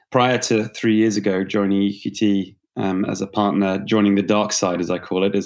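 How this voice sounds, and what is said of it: British accent. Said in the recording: “I'm a Brit by background, as you can tell, perhaps from the accent.”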